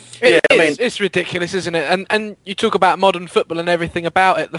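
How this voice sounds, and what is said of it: Slightly croaky voice. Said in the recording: “my voice is probably a bit croaky now”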